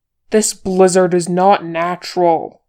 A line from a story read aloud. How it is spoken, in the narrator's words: shouted Boromir